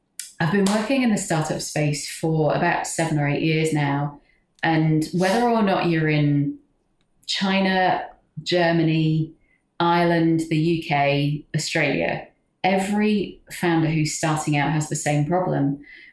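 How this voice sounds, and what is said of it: English accent. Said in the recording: “As my accent might belie, I'm English.”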